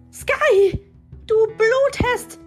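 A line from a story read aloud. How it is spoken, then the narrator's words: Shrieking. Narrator (German): kreischte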